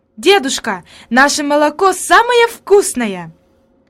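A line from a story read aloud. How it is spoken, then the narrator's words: Excited exclamation. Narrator (Russian): она воскликнула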